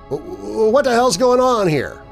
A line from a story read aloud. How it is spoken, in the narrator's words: I stammered